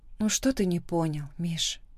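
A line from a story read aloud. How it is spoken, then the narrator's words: Quiet question. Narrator (Russian): спрашиваю тихо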